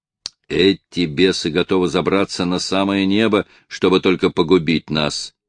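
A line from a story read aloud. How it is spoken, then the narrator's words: Plain. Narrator (Russian): сказал разведчик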